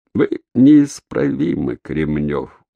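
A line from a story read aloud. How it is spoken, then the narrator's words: Sigh. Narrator (Russian): он вздохнул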